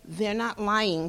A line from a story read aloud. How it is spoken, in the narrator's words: Tyrone said softly